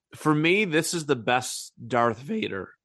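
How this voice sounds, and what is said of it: Voice cracks mid-sentence. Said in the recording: “My voice just cracked.”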